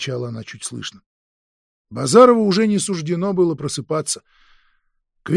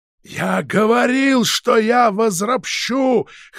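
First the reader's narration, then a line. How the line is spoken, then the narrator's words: Hoarse shouting. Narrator (Russian): хрипло кричал он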